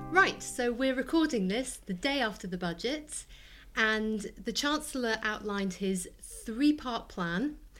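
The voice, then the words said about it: Slightly hoarse voice. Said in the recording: “after I've done an awful lot of talking about the budget ... which is why I'm sounding a little bit hoarse now”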